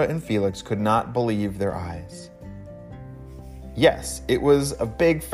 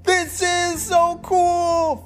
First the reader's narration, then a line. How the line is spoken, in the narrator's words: Felix shouted